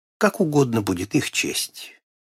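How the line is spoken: Calm reply. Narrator (Russian): он спокойно ответил мне своей обычной фразой

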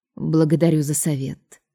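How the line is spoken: Tired, strained reply. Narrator (Russian): устало отозвалась мать Драгона, вымученно улыбнувшись

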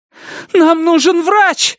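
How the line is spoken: Screaming. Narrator (Russian): закричала Дженни

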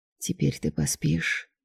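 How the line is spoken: Quiet reply. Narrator (Russian): тихо ответил Драгон

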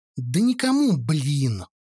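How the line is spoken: Somewhat irritated reply. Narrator (Russian): уже несколько раздраженно ответил я

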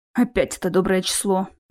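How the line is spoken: Involuntary mutter. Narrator (Russian): Невольно буркнул я

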